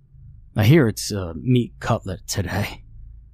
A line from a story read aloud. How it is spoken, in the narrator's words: he chuckled